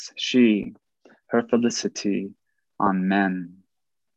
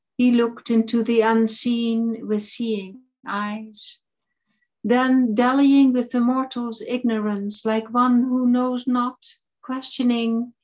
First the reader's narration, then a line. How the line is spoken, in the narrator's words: he cried